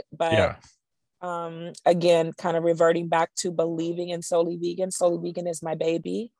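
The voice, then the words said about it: Hoarse, tired voice. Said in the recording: “my voice is hoarse right now because I'm exhausted”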